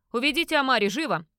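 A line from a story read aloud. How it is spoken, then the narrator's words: Barking over the din. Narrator (Russian): рявкнул советник, перекрикивая стоявший в зале гвалт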